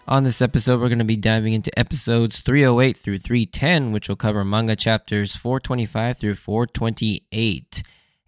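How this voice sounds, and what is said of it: Hoarse, worn-out voice. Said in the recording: “my voice is kind of gone at this moment because just a couple days ago, I was at a Seattle Mariners game”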